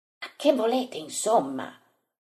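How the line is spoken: Quiet, resentful question. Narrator (Italian): chiede piano, ma con risentimento

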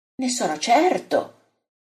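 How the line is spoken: Exclaims. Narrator (Italian): esclama Giovanni

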